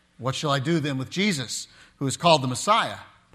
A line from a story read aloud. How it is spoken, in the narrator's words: Pilate asked